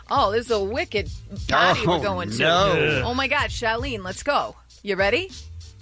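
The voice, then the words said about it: Put-on Boston accent. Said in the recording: “Boston is not a pretty accent... it's awful... I find myself when I'm there... Picking up”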